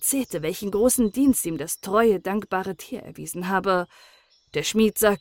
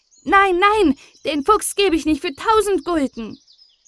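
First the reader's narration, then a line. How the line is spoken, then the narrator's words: Calling out. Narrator (German): Niklas rief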